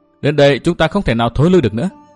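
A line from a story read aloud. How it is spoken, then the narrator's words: Smiling. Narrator (Vietnamese): Nguyên Bình mỉm cười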